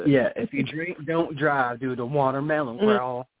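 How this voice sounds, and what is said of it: Southern American accent. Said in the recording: “my southern accent came out right then.”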